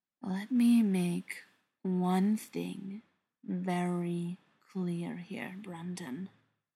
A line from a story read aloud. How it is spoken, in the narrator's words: Beckett said softly